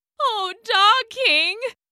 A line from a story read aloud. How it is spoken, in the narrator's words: whined, shaking all over